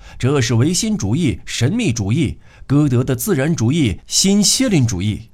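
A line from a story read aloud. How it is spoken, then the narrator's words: Shouted. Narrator (Chinese): 马上有人喊道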